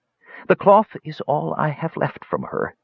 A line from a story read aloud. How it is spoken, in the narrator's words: the mage said sadly